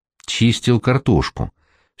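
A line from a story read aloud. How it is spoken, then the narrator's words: Calm reply. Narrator (Russian): все так же спокойно ответил Новосельцев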